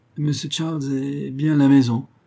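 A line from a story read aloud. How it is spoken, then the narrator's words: Servant stammering. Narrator (French): répondit le serviteur en balbutiant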